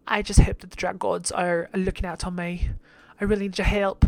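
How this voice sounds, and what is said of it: Poor English accent, sounds Australian. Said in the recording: “Well, she's not country. She's English. ... That was Australian. Oh my god, I'm terrible at accents.”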